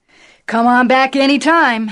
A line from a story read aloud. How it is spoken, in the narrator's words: Howard Mitlow shouted